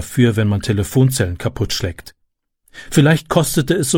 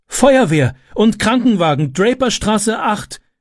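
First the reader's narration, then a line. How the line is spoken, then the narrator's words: Call out. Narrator (German): rief sie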